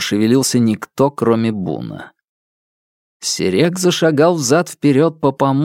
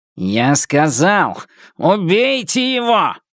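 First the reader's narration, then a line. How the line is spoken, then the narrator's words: Barked. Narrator (Russian): рявкнул он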